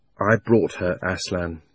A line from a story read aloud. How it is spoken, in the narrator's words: answered in a low voice